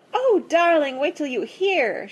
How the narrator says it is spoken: cried

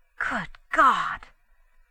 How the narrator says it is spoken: breathed Larry

